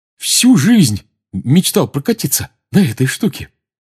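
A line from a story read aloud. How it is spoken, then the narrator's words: Joyful. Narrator (Russian): радостно сказал Рон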